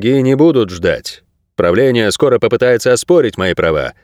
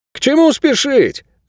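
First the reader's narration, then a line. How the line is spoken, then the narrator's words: Shout from crowd. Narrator (Russian): выкрикнул кто-то из толпы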